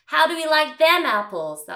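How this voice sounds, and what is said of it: Poor put-on Boston accent. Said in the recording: “That's my terrible Boston accent.”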